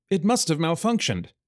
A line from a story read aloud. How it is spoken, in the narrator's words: a clerk exclaimed